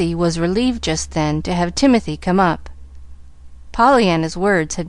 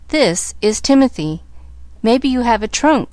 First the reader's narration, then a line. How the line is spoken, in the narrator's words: she stammered